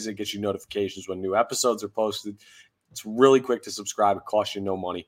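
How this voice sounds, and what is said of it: Slightly rough, congested voice. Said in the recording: “You can hear like my voice is a little bit shoddy today. I'm fighting off a cold right now... voice ain't 100%”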